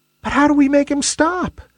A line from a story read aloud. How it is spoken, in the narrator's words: squeaked a wispy little cloud